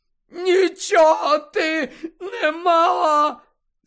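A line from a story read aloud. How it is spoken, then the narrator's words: Roared. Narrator (Ukrainian): заревів Невіл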